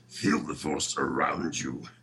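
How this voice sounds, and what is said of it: Yoda impression voice. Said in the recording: “my Yoda impression ... Oh, that's really good ... That's damn good”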